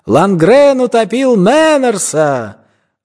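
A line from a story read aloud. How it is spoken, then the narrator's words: Boys shouting after. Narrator (Russian): Мальчишки кричали вдогонку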